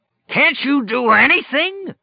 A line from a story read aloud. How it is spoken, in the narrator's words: Flagg roared